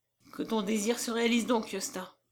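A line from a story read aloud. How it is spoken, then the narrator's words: Woman's sigh. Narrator (French): soupira-t-elle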